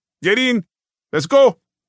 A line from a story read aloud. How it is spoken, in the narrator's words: he barked